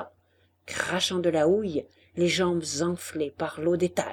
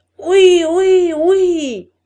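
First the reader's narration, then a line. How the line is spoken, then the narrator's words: Many voices yelling. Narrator (French): hurlèrent les voix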